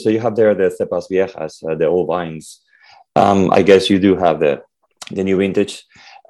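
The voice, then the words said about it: Rough, sick-sounding voice. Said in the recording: “Sorry for the voice. ... I had the flu.”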